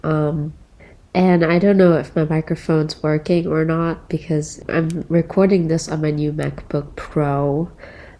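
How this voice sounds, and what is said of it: Sick-sounding voice. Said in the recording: “Yes, I'm sick, as you can tell by my voice, probably.”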